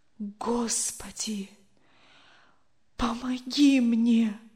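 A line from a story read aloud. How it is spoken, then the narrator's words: Whispering. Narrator (Russian): прошептал он наконец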